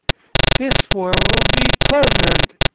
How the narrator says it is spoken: replied the girl cheerfully

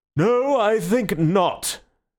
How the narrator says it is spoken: said with a yawn like an unobtrusive earthquake

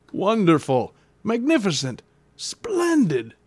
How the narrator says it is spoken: cried my uncle

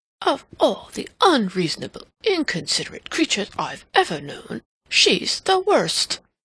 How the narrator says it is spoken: he exclaimed to himself

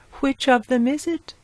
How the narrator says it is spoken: asked anxiously

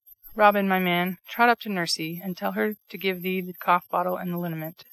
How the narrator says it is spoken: said Mr

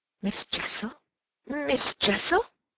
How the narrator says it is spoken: with a gasp I echoed it

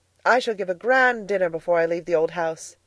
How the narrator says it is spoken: Edna exclaimed

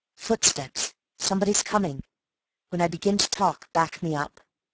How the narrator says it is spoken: whispered in his ear

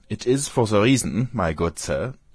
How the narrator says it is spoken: said he, speaking with a German accent

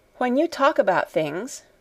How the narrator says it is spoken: she said

